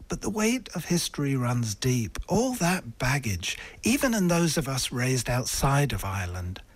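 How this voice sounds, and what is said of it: English accent. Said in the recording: “I am a radio presenter with an English accent working here in Ireland”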